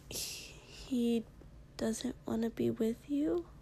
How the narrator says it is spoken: Kiri said sadly

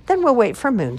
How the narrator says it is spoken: squeaked Mouse

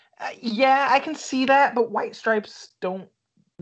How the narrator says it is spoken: they yell, but not like on their radio hits

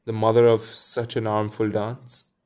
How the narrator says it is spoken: cried Wendy

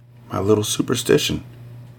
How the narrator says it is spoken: She whispered

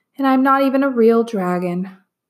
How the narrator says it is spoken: the dragon said sadly

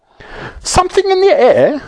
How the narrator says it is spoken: said the saucepan man, and he looked up anxiously

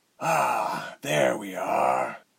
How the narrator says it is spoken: Althod sighed, bored

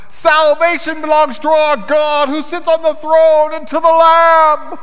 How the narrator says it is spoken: they cried out in a loud voice

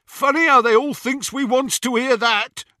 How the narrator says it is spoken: jeered Scabia out of the shadows

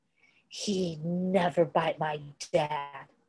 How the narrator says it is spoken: Styles snapped

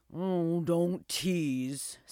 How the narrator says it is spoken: sighed the old dog

